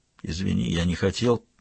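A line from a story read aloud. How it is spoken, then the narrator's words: Mumbling. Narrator (Russian): пробормотал Валандер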